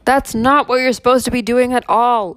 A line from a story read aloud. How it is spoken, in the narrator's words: Oberon shouted at him